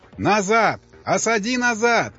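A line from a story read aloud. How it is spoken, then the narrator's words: Shouting at crowd. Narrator (Russian): Он кричал на обезумевшую толпу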